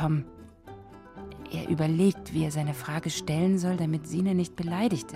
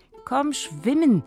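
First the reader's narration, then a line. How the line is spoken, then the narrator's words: Calling out. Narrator (German): ruft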